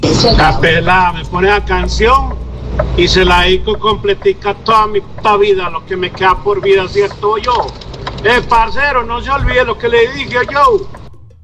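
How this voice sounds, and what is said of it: Speaks with a distinct accent. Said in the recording (Spanish): “Me encanta ese acento”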